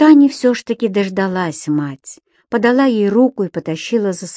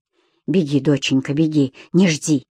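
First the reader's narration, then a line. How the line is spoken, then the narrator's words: Breathless rasp. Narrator (Russian): Юлия Николаевна, задыхаясь, только прохрипела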